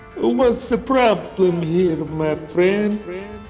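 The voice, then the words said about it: Thick polite Italian accent. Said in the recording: “In a thick and polite Italian accent”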